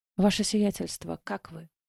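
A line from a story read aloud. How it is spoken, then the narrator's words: Quiet question. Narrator (Russian): тихо спросила лекарь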